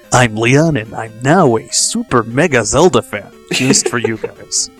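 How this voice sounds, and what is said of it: Deep movie trailer announcer voice. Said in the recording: “doing that movie trailer voice? ... I guess I'm supposed to be like Don LaFontaine or something.”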